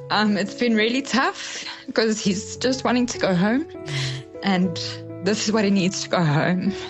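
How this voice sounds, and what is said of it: Emotional, choked-up voice. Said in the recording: “I'm a bit emotional.”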